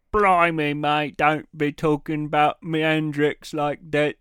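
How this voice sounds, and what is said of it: Bad put-on British accent. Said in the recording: “I'm not going to try and do a British accent. ... Is that good? That was terrible.”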